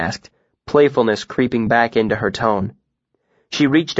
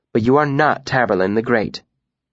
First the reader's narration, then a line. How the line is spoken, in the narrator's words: said dryly